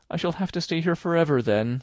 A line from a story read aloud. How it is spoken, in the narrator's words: said Anne, mournfully